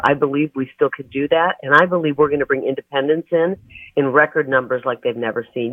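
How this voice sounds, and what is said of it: Hoarse voice. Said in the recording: “If I'm a little bit hoarse today, it's because I was up until 3 a.m. So thanks for putting up with my voice today.”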